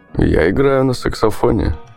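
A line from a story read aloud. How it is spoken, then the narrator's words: Laughing reply. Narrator (Russian): рассмеялся и ответил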